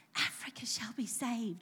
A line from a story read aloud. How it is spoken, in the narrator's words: repeated under my breath again and again